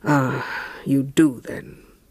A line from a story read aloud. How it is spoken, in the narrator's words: her suitor murmured with bitterness